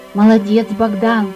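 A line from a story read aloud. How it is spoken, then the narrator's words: Warm praise. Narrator (Russian): похвалил ангел мальчика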